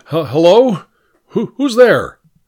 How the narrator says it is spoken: I called out

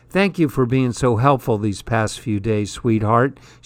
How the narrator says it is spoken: she says, her voice thick with sleep or grief or both

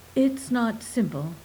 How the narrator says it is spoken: she said

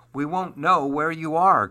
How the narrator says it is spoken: cried his father

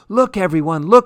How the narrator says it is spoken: cried

